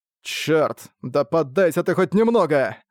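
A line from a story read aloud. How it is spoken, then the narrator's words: Furious growl. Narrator (Russian): В бешенстве прорычал человек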